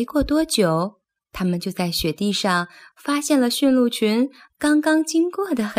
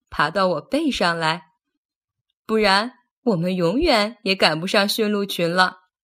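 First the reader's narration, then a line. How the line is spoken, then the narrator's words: Laughing. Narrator (Chinese): 奥托笑着说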